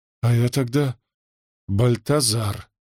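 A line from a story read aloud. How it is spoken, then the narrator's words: Breathed out at last. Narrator (Russian): выдохнул наконец тот, кого называли русским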